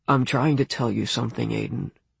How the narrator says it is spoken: said Jared, his voice growing smaller as he tried to admit something big

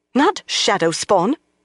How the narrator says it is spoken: snapped

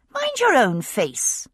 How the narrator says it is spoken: I said, rather crossly

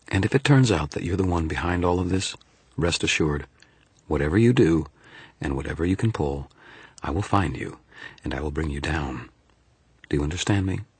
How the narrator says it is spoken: said, in a perfectly even tone

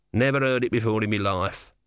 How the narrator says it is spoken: said the tortoise bitterly

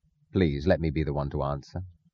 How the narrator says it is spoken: Francisco said quietly

